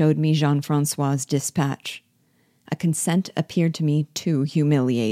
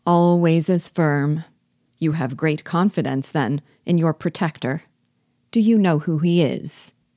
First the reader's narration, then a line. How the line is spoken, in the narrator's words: repeated he, with his sardonic chuckle